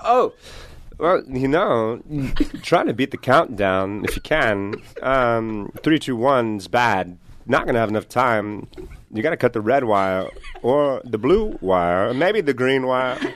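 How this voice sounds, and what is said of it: Christopher Walken impression. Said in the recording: “Mr. Walken”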